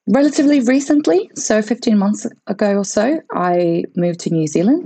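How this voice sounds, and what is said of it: Mixed Latvian and British accent. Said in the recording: “I do have a slightly strange accent. I have a little bit of Latvian, a little bit of British, and definitely starting to pick up some of the mannerisms from this part of the world”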